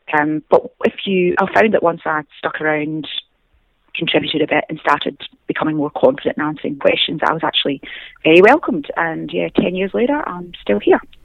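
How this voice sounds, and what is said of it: Scottish accent. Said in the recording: “you have an accent ... born in Scotland, near Glasgow ... hence the accent”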